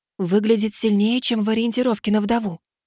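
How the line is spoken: Whisper. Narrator (Russian): шепнула Сумми

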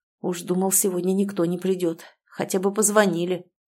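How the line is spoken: Displeased grumbling. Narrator (Russian): проворчал недовольно

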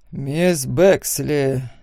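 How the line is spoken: Heavy sigh. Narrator (Russian): тяжело вздохнул судья

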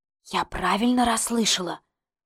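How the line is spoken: Whisper. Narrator (Russian): шепнула я

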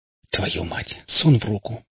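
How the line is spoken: Whisper. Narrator (Russian): прошептал я

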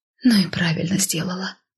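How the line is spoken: Breathed out. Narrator (Russian): выдохнула я

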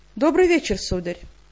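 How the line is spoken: Calm greeting. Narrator (Russian): спокойно поприветствовала я

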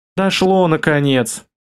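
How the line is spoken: Sighed. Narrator (Russian): вздохнула Инга

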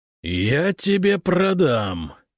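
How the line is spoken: Roar. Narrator (Russian): взревел Прудников

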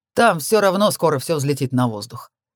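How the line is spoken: Amused snort. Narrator (Russian): хмыкнул

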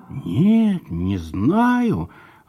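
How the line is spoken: Confused boy admitting. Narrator (Russian): растерянно признался мальчик

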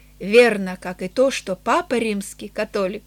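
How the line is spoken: Solemn. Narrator (Russian): Он торжественно ответил

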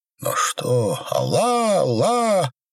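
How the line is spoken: Several voices shouting. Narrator (Russian): закричали в несколько голосов

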